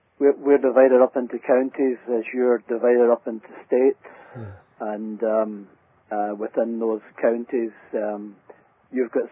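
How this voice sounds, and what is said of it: Scottish accent. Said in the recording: “your accent gives you away that you're not actually from England ... originally from Scotland, from Glasgow”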